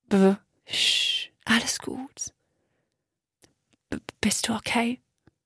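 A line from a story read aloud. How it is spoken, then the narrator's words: Very weak faint voice. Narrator (German): Max' Stimme war so schwach, dass Miri die Worte kaum verstehen konnte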